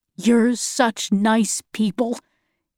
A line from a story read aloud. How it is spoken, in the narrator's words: he said